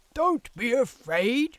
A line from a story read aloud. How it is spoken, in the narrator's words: shouted the hunters